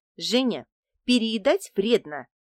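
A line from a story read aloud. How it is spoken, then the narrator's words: Stern warning. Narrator (Russian): предупредила меня тетя Мила строго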